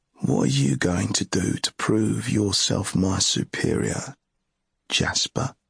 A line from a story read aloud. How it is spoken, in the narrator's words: Ged said to Jasper quietly, as before